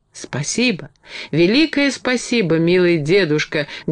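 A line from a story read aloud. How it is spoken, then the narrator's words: Fervent exclamation. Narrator (Russian): горячо воскликнула Энни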